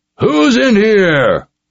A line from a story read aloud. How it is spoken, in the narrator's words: the man bellowed